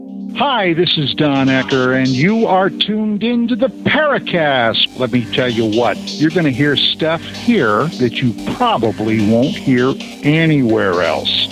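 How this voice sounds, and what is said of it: Announcer-style voice. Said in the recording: “special announcer voice”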